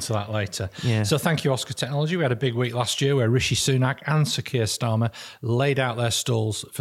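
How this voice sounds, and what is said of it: Usual voice. Nothing is said of it.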